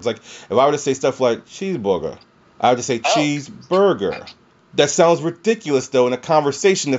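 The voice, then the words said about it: Low, slow Southern drawl. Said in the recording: “I do talk low, and a lot of times I do talk very slow, and you can hear my Southern drawl”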